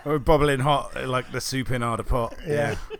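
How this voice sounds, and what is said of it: Sung line in put-on accent. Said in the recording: “don't do the accent. ... No, don't do the accent.”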